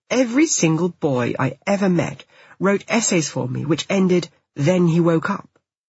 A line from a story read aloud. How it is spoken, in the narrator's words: he snaps